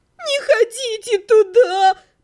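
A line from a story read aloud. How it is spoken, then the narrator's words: Sobbed by a girl. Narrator (Russian): прорыдала девушка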